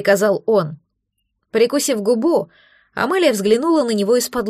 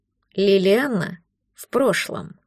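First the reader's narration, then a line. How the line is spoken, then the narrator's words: Calm. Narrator (Russian): спокойно сказал он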